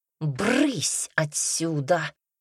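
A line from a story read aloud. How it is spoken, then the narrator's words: Hissing. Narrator (Russian): прошипела матушка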